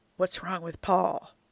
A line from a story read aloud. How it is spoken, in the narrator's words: Joe whispers